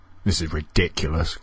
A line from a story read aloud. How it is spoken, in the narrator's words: grumbled one of the girls